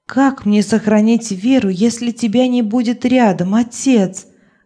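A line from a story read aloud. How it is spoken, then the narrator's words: Sobbing. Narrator (Russian): рыдала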